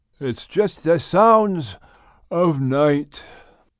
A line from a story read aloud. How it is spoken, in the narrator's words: Noah replied, yawning